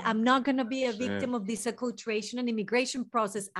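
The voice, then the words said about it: Non-native English accent. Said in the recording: “20,000 accent, grammar, English mistakes ... with accent and all”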